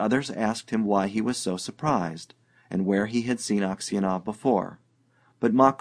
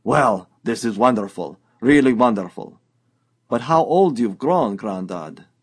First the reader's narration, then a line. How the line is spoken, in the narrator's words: Makar Semyonich exclaimed